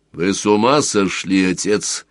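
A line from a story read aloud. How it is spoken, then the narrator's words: Almost rude question. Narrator (Russian): спросил Сварог почти грубо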